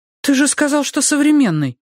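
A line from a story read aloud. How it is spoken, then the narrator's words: Offended exclamation. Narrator (Russian): обиженно восклицает она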